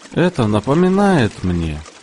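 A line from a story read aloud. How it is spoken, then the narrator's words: Sudden, with deep sigh. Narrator (Russian): Неожиданно он глубоко вздохнул и сказал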